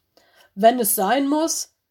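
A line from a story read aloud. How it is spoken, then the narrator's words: Barking ice wolves. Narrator (German): bellten die beiden Eiswölfe Bruce und Willis aus der letzten Reihe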